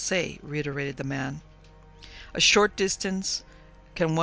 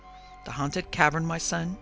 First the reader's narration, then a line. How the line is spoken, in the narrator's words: he said in quavering tones